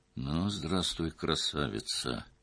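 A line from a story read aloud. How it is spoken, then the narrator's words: Quiet. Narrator (Russian): тихо сказал он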